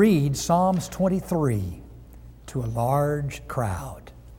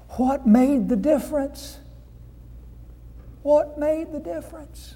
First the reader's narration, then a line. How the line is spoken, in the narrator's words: Somebody in the back cried